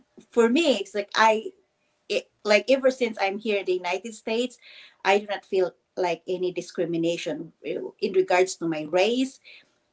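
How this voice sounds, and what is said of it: Non-native English accent. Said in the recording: “I still have the accent ... you're talking really good ... I'm kind of getting that New York vibe in you”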